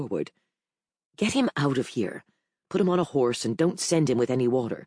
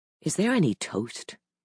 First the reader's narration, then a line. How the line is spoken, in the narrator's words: I asked, sitting down wearily